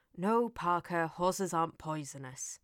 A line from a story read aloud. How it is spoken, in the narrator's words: Elliot sighed